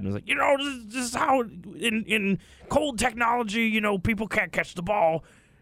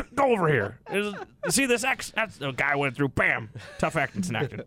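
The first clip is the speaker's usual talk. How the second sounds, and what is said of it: Imitates another person's voice. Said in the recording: “I don't think John Madden would appreciate that impression ... My John Madden kind of sounds like my Bill Cosby.”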